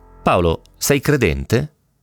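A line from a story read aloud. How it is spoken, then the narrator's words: Calm question. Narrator (Italian): Con voce pacata mi chiese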